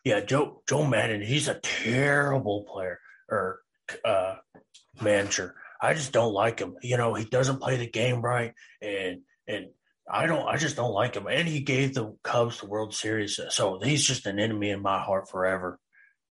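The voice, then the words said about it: Imitates another person's voice. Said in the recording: “That is my Josh impression.”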